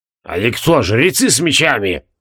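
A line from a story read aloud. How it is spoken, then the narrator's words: Angry grimace. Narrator (Russian): Зло скривился Регелион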